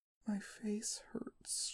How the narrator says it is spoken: she mumbles

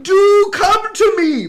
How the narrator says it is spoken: Her husband cried

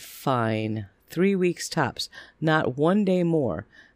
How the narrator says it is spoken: sighed and said

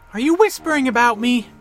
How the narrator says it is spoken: Bex called out

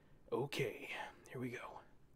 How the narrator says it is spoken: he whispered

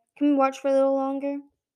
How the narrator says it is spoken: Secret Keeper sighed

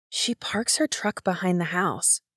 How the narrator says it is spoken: Nix whispered into the receiver

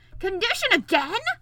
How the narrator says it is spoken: roared the king

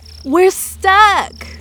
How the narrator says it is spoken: Venti yelled to Love

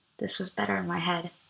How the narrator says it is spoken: I whispered

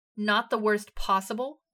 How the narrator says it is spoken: Eden shouted

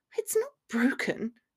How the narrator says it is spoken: she muttered a little distantly

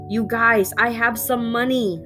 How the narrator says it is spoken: I yelled

